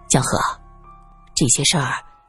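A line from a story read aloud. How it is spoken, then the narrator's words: Low voice. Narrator (Chinese): 他低声道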